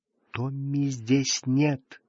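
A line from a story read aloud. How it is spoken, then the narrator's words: Whisper. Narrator (Russian): шепотом сказала она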